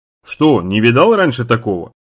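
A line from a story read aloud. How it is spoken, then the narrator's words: Booming bass voice. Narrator (Russian): стражник спросил раскатистым басом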